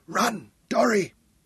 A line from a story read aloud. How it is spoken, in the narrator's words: Tom croaked dazedly from where he lay in the bracken, without the strength to sit up